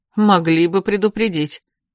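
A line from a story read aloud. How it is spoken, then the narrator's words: Mild grumble. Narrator (Russian): беззлобно проворчал Эрик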